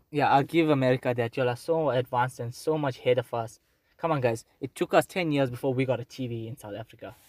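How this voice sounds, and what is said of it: South African accent. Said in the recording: “we are in South Africa. I'm sure you can hear by the accents”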